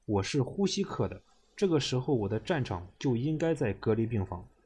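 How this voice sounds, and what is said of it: Strong Shandong accent, firm tone. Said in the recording (Chinese): “他说话带着浓浓的山东口音，平时中带着无比的坚定。”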